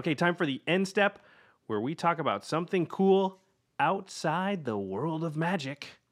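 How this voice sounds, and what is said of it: Game show host voice. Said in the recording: “I went to my game show voice”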